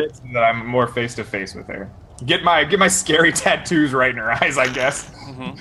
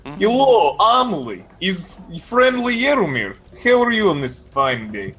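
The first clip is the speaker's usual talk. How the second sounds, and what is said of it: Heavy accent, character voice. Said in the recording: “you speak with this heavy accent”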